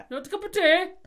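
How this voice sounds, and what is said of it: Poor put-on Yorkshire accent. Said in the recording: “Or I can't, Yorkshire. ... No, that was terrible. ... that Yorkshire accent was amazing.”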